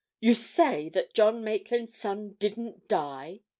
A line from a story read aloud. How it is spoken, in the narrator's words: he exclaimed